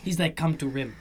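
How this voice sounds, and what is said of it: Weak put-on Greek accent. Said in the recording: “That is not my best Greek accent.”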